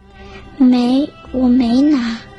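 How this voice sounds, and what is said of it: Quiet, soft-spoken line. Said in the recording (Chinese): “小狐狸小声说”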